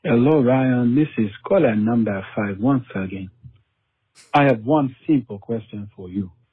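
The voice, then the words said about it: African accent, high then falling inflection. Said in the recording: “an African accent. That's pretty solid. I don't know if that was South Africa. I don't think it was. It was like Nigerian or something ... that inflection that's in there. You start real high and then you just kind of fade down.”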